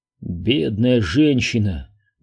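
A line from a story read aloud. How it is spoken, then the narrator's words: Sigh. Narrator (Russian): вздохнул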